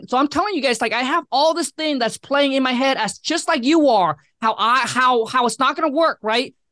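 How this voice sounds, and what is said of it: Speaks with a noticeable accent. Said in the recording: “I have this accent.”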